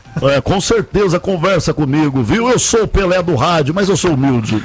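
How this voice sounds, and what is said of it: Imitates another person's voice. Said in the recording (Portuguese): “conversar com o Milton Imitação”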